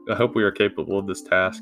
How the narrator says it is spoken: he said under his breath

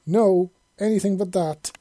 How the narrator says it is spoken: she exclaimed

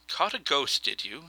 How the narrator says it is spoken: said Sanderson

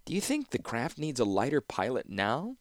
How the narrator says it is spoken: said Tokasia

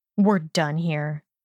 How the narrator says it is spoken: Draco snarled

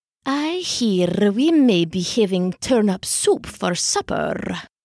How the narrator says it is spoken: she purred

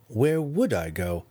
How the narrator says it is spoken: he asked again

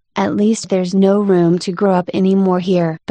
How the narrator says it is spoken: She added in a sorrowful tone

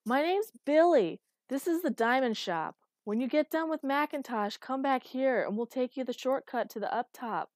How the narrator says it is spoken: he shouted

